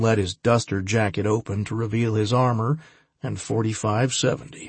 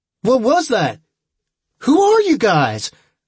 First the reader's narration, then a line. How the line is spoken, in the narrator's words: the kid shouted, suddenly afraid